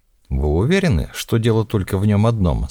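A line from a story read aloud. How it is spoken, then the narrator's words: Plain. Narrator (Russian): спросил Бельмондес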